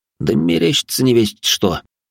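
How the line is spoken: Slightly plaintive, trusting. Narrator (Russian): немного жалобно сообщил ему Равнин, внезапно вдруг ощутив доверие

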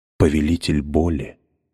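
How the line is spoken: Whisper. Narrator (Russian): прошептала монета

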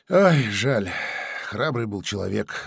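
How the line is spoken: Sighing regretfully. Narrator (Russian): вздохнул Алексей Николаевич

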